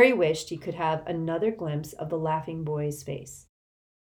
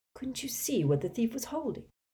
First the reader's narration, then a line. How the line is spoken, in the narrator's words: Ron whispered